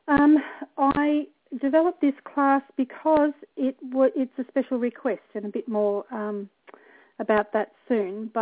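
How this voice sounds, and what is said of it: Slightly husky voice. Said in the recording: “I'm a little bit husky tonight, so please excuse my voice.”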